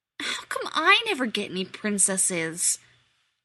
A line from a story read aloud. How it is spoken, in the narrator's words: Rodney whined him